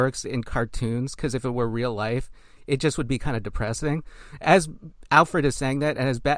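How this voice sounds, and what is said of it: Usual voice. Nothing is said of it.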